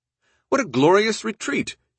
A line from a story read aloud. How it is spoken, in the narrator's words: exclaimed, and laughed for a long time